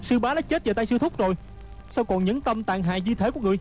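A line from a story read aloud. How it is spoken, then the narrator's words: Furious shout. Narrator (Vietnamese): Hư trúc cả giận quát khỏi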